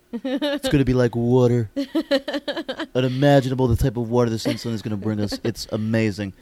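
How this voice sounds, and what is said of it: Imitates another person's voice. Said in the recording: “Stuck on Trump... I'm stuck on Trump... that fucking impression”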